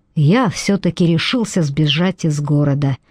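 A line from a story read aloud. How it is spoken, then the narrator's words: Quiet. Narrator (Russian): тихо проговорил Зейн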